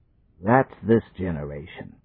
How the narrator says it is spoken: muttered the parson

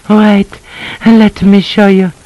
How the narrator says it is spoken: she panted

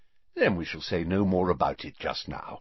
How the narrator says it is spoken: said Dumbledore more kindly

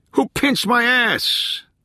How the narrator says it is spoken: someone yelled, laughing

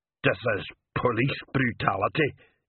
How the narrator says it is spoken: Igneous muttered

